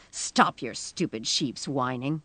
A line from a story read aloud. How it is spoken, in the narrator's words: heard her snarl